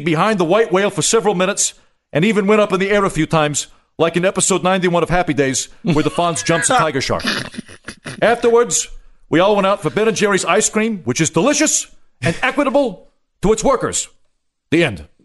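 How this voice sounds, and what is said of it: Bernie Sanders impression. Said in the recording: “solid Sanders ... me doing it with the Bernie Sanders accent”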